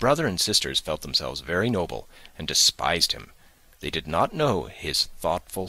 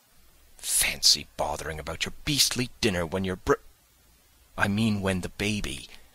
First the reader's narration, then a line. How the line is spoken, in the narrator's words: Jane whispered hotly